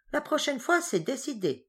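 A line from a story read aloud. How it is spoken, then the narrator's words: Exclaiming while giggling. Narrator (French): s'exclama-t-elle en pouffant de rire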